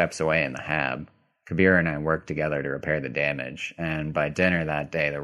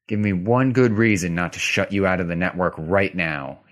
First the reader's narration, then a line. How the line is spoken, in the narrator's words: he said through clenched teeth